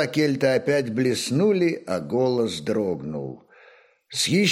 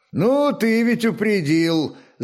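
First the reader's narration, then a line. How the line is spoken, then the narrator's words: Laughing. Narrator (Russian): засмеялся Рарок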